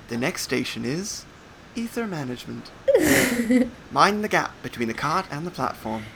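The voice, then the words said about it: English accent, train announcer style. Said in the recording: “You have a quite good English accent”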